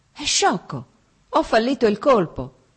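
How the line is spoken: Exclaiming. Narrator (Italian): esclamò

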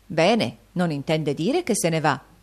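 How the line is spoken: Exclaimed. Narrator (Italian): esclamò la signora Gradden

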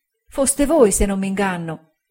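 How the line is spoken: Voice choked with tears. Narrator (Italian): disse con voce soffocata dal pianto

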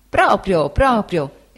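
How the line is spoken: Exclaiming. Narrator (Italian): esclamò Cam

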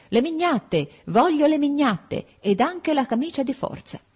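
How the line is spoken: Yelled. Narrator (Italian): urlavo

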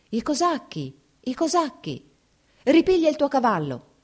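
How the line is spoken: Woman shouting. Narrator (Italian): gridò la cantiniera

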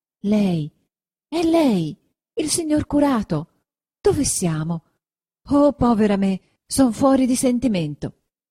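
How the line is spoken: Exclaimed. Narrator (Italian): esclamò

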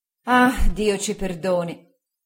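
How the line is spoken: Woman's sigh. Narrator (Italian): sospirò mia zia

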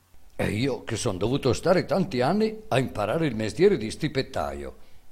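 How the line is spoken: Boy exclaiming. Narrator (Italian): esclamò il ragazzo

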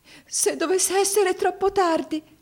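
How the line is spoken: Anguished exclamation. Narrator (Italian): esclamò con angoscia

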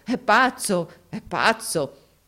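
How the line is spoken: Laughing group exclamation. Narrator (Italian): tutti scoppiarono dalle risa, esclamando

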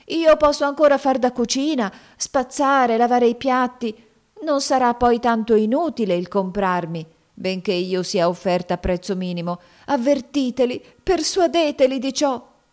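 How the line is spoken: Pleading voice. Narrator (Italian): soggiunse ella con voce supplichevole

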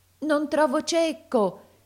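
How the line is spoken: Tearful shout. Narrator (Italian): gridava talvolta col pianto alla gola

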